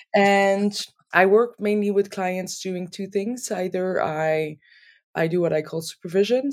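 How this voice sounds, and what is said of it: Non-native accent in English. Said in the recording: “My accent is still there and I do make a little mistakes here and there”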